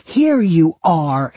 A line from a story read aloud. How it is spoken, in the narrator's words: Amy shouted